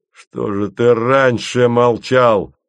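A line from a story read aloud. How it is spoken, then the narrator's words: Barked. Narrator (Russian): рявкнул он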